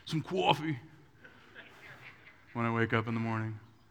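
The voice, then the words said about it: Put-on East Coast accent. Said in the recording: “I get like an East Coast accent.”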